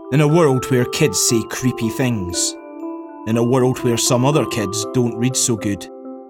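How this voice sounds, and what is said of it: Man with a cool accent. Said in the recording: “this guy with the cool accent”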